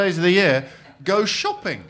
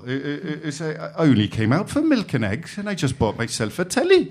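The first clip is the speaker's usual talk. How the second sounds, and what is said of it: Attempted Welsh accent. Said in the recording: “Welsh bloke, and I'll have a crack at the accent”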